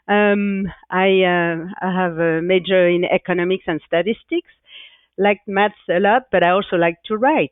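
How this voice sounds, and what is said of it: French accent. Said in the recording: “as you can hear by my accent, I did study in France”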